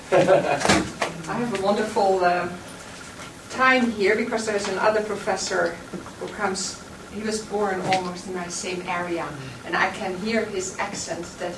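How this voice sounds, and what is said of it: Dutch accent. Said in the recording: “she does have an accent, and it's not Michigan. It's Holland. Not Michigan.”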